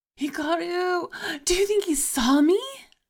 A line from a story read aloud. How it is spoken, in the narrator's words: Sai asked excitedly